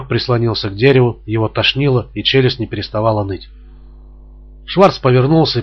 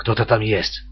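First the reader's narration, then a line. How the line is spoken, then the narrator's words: Whispered. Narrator (Russian): сказал уже шепотом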